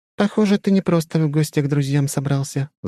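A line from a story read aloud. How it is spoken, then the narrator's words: Sigh. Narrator (Russian): вздохнула она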